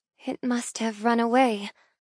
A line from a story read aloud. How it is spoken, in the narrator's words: I whisper in dismay